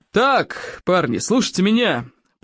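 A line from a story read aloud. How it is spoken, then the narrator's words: Roared. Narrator (Russian): проревел плевака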